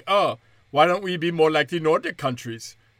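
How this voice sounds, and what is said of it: Put-on Swedish accent. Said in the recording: “That's my Swedish accent.”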